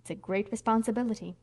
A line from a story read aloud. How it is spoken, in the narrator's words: said Aunt Jamesina solemnly